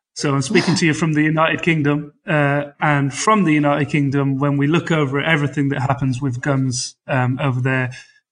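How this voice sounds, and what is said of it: British accent. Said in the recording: “this is a British accent.”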